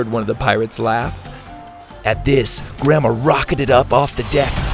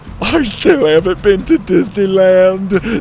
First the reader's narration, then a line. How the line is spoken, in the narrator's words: Dante whimpered